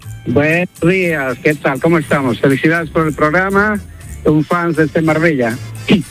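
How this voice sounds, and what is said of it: Bolivian Spanish accent. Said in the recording (Spanish): “con ese acento, digo yo, me nos llama del norte... Soy boliviano... parecía gallego”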